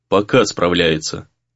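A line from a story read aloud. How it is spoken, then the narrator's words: Gloomy clarification. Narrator (Russian): мрачно уточнил Гризли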